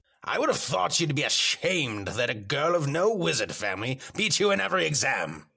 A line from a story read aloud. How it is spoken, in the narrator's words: snapped Mr